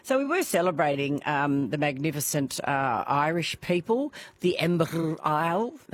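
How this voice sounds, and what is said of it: Bad put-on Irish accent. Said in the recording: “a really bad Irish accent.”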